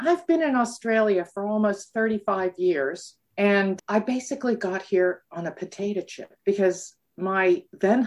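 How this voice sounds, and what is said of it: North American accent. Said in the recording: “you can tell from the accent that I'm not a native ... it is a North American accent”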